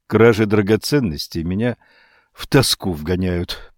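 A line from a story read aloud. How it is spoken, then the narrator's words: Muttered. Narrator (Russian): пробормотал Данглар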